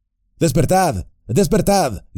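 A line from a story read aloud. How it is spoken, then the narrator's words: Shouted. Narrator (Spanish): gritó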